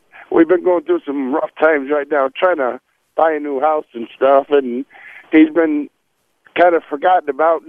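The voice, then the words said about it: Choked-up, emotional voice. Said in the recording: “a little choked up”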